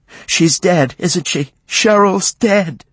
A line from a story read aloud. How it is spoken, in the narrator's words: she cried